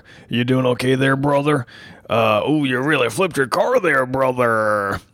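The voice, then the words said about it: Hulk Hogan impression. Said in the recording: “that's a pretty good impression”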